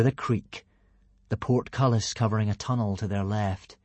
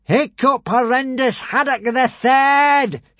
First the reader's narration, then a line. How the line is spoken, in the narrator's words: shouted Alvin